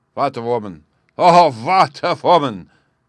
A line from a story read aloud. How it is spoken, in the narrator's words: cried the King of Bohemia